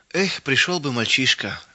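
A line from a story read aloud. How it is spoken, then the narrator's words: Sighing. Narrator (Russian): вздохнул мельник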